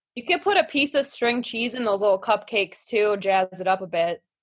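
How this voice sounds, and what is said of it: Wisconsin regional accent. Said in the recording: “that accent talking about cheese and saying the word Wisconsin is perfect”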